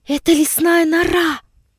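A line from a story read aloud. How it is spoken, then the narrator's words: Excited whisper. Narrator (Russian): прошептала Сибирочка, и сердце ее сильно забилось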